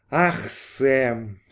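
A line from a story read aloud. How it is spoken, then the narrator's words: Sighing. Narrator (Russian): вздохнула Дорис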